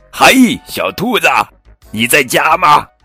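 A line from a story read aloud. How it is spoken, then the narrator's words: Calling from outside door. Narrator (Chinese): 有人在门外喊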